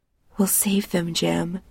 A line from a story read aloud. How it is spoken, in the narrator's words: she whispers